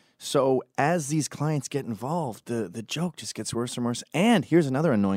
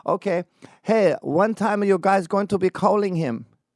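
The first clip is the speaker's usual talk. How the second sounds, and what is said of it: Imitated Hungarian accent. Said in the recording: “someone from Hungary shows up ... you have an accent? ... with an accent”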